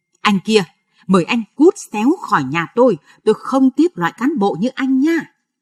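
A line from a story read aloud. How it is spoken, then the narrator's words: Shouting. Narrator (Vietnamese): Rồi âm quát lên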